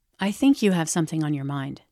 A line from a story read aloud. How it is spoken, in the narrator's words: I answered